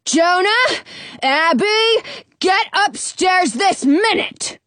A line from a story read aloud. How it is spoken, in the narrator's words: yells my dad